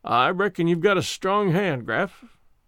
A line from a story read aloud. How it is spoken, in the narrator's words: he said, and his voice was flat with despair